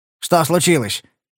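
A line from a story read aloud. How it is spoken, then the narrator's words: Barked. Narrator (Russian): рявкнул он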